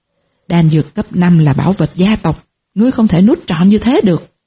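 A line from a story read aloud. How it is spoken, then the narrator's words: Angry. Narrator (Vietnamese): Triệu Thiên tức giận nói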